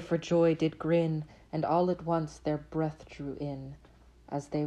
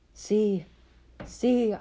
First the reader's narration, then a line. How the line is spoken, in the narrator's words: I cried